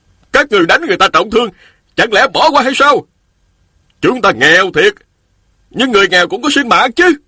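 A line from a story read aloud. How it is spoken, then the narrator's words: Loud men. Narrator (Vietnamese): Trong đám đông có 3 nam phụ bước ra, lớn tiếng nói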